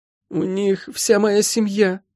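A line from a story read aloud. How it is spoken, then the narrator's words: Moaning. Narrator (Russian): простонала Молли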